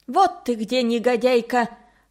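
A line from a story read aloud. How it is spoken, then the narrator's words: Coarse roaring voice. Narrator (Russian): в торе бабушки проревел чей-то грубый голос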